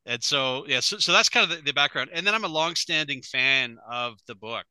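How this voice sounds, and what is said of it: Canadian accent. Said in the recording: “I am a Canadian as well, if people haven't recognized my accent. Not as beautiful as Joey's, but I try.”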